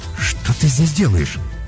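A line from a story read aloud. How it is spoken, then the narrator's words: Bewildered question. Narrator (Russian): растерянно спросил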